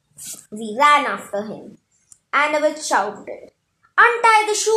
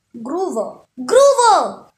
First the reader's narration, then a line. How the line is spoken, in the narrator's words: I yelled, my voice echoing